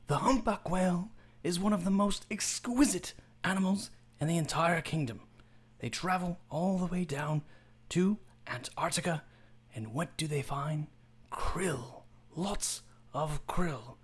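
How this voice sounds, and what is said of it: David Attenborough narrator impression. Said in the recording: “I realized that I could do David Attenborough's voice ... Do David Attenborough.”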